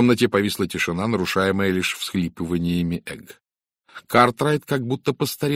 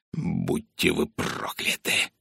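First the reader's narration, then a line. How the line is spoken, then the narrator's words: Hiss. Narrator (Russian): прошипел он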